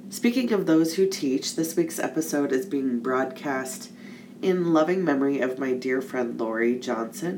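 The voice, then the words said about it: Slightly congested voice. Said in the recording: “my voice is a little congested”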